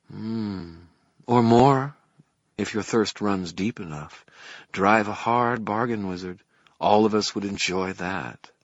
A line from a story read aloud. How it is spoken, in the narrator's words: Mav murmured